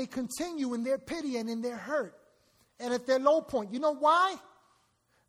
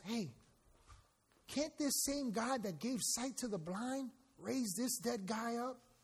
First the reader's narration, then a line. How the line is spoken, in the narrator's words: mutter and whisper amongst themselves